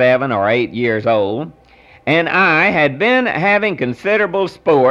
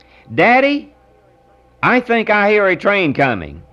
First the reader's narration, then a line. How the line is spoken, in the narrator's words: exclaimed my son